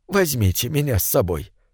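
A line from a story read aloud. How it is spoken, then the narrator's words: Whispered plea. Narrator (Russian): шепотом попросил он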